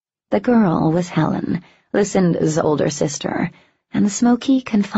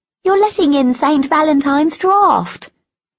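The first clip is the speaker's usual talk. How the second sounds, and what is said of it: High-pitched character voice. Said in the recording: “a high voice called across the room”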